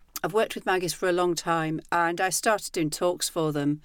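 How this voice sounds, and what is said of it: Northern English accent. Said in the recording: “my partner endlessly takes the mickey out of my accent. ... comically northern”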